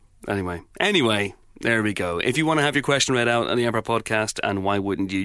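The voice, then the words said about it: Deep voice from a cold. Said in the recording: “Got a bit of a cold this week. My voice is quite deep, super villainy.”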